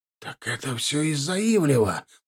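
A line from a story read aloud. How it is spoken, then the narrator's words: Hissed. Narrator (Russian): прошипел Гончарук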